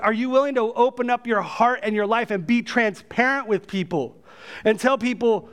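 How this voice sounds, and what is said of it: Yelling. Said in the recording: “I don't know why I'm yelling”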